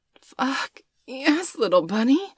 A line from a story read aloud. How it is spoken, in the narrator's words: she groaned